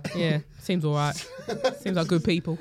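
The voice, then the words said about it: Imitates another person's voice. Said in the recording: “that impression of me? It's so like kind of spot on.”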